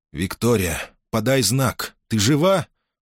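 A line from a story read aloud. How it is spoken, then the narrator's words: Trembling questioning voice. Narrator (Russian): спросил он дрогнувшим голосом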